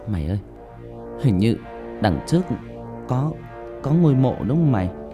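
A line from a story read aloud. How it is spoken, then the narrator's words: Frightened trembling voice. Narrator (Vietnamese): bạn Linh giọng run run nói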